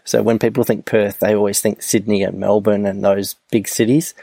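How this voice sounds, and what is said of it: Australian accent. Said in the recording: “You Australians and your vernacular ... my voice and my accent”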